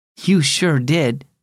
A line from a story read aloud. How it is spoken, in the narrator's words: said Mom